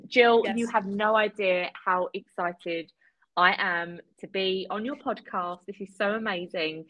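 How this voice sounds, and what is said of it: Speaks with a noticeable accent. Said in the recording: “I'm basically using her for her accent ... I am always here for you to utilize my accent.”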